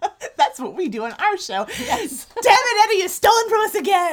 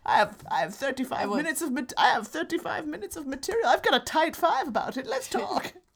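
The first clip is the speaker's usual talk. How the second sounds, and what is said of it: Put-on British accent. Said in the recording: “my very good British accent”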